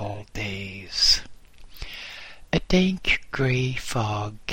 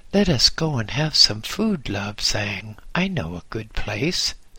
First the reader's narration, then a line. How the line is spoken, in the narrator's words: said Wang